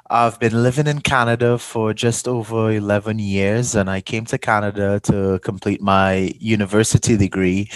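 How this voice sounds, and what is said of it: Slight Trinidadian accent. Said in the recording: “Maybe you can tell I have a bit of an accent. I'm from a small twin island in the Caribbean called Trinidad and Tobago.”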